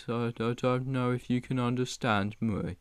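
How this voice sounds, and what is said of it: Poorly imitated Black Country accent. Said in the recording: “the Black Country accent. It goes a bit like this... That was terrible”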